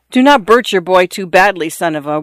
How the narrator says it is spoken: one of the men in the room cried to her

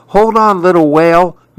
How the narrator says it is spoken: Maribel pleaded

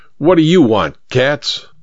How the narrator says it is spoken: Kramer barked

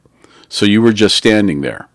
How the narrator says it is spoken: the officer asked

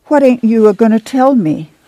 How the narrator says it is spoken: She begged

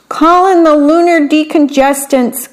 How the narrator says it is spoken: cried the little alien

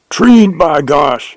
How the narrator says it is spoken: yelled Jones, joyfully

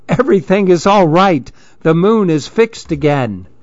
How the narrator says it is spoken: the smallest monkey called out happily

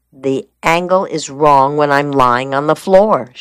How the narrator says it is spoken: she replied

